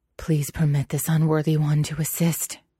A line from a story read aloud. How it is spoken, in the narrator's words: he panted